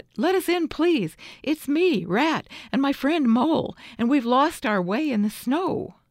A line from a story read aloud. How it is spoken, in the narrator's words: cried the rat